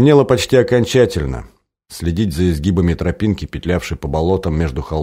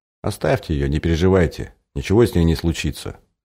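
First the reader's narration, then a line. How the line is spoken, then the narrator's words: Calm old man. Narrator (Russian): спокойно проговорил дед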